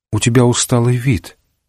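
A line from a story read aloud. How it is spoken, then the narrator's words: Quiet. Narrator (Russian): тихо сказала жена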